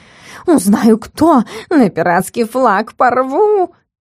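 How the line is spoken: Hissing. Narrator (Russian): зашипел

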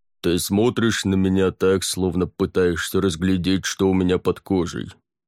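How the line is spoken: Deep bass. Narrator (Russian): пробасил лорд Аббот

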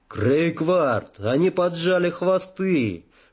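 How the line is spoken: Excited shout. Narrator (Russian): возбужденно закричал Двил Традик

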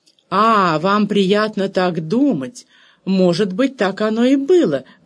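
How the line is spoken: Exclaimed, countess. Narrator (Russian): воскликнула кондесса

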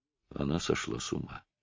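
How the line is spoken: Barely audible, voice lost. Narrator (Russian): У сэра Чарльза пропал голос, и он проговорил чуть слышно

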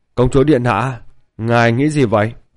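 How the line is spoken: Giggling plump girl. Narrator (Vietnamese): Thiếu nữ mũm mĩm, mỉm cười, cười hì hì nói

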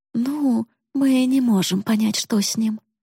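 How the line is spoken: Uncertain. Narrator (Russian): неуверенно ответила мама

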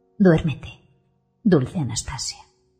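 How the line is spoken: Murmuring. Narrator (Spanish): murmura

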